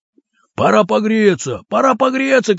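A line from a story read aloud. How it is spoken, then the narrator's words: Shouting crowd. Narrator (Russian): кричали и другие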